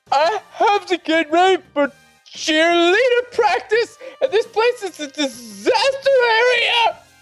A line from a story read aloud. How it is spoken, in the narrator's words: She screeched